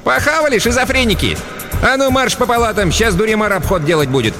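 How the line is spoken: Cheerful shout. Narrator (Russian): Сегодня Хмызочка была в хорошем настроении, весело прикрикнула

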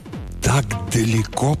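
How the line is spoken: Astonished whisper. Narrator (Russian): прошептал пораженный Зискин

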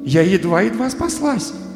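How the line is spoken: Relieved, pleased exclamation. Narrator (Russian): воскликнула Алиса, очень довольная, что все кончилось благополучно

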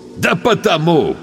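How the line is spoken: Young man guffawing. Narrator (Russian): расхохотался парень

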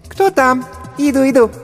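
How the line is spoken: Squeaky female voice. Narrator (Russian): пропищал женский голосок

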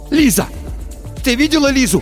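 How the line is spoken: Shouting. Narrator (Russian): закричал Тихон

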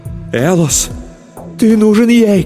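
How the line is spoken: Shouting. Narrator (Russian): кричала моя любовь

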